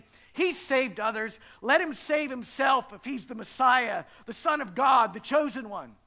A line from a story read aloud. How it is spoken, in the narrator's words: the leaders scoffed at him, saying